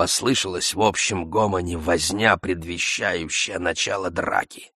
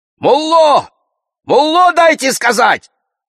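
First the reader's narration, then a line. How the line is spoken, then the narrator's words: Shout. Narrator (Russian): крикнул кто-то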